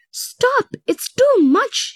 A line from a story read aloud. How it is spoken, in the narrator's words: cried